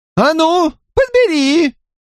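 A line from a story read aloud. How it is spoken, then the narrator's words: Angry shout. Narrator (Russian): крикнула она, зло глядя на Стивена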